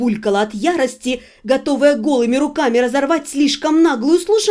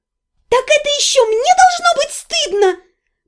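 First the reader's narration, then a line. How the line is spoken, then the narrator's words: Shrill squeal breaking falsetto. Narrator (Russian): Препротивно взвизгнула, сорвавшись таки в конце на фальцет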